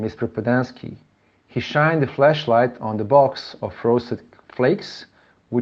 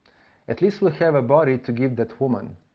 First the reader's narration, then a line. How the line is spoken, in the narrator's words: said Mr